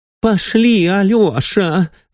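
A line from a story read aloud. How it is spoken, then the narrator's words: Pleading woman. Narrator (Russian): взмолилась генеральша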